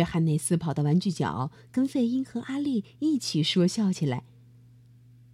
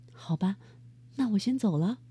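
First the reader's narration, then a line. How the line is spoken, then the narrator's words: Sighing. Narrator (Chinese): 妈妈叹了口气说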